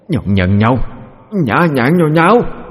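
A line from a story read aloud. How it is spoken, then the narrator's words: Old woman howling. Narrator (Vietnamese): bà ... mà gào lên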